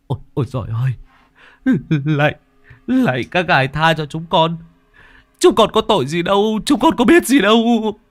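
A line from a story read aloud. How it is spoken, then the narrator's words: Whimpering desperate pleading. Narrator (Vietnamese): chúng nó quỳ xuống mếu máo van lạy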